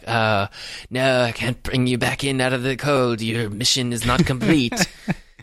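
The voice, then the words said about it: Impression of Atlee. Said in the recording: “pretty good Atlee impression”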